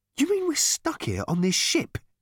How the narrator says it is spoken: exclaimed Ford, suddenly losing patience with the whole charade

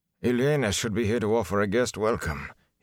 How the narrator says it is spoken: he muttered absently

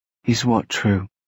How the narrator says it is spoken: she asked him in a small voice

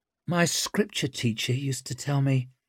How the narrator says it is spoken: murmured Zuri, eyes narrowed with concentration

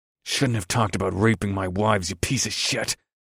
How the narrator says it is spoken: I snarled

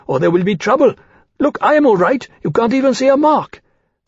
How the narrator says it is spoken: Demain said urgently

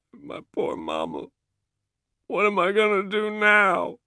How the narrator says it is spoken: Claude sobbing

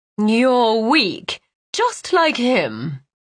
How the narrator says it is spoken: Lyra said with a sneer

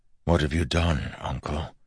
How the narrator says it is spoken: Wax asked softly

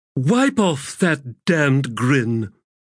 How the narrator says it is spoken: Abrastel said in a growl

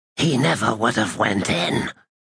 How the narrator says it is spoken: one of them said in a hoarse whisper

